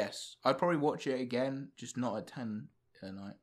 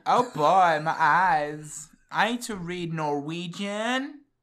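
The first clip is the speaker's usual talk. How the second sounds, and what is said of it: Bratty teenager voice. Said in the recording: “I sound like a bratty teen now ... Does not sound like”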